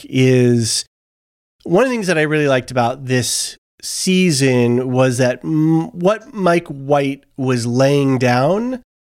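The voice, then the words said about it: Voice sounds sick with a cold. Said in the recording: “You probably hear my voice. I've got a little bit of a cold... you'll probably hear it in my voice throughout the recording”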